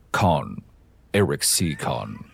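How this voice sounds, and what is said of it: Timothy Dalton James Bond impression. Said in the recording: “your James Bond impression ... my best Timothy Dalton Bond”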